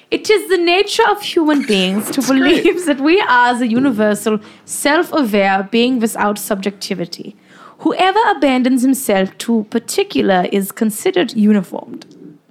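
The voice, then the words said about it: Put-on German accent. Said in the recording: “I'll do this in my best German accent for you.”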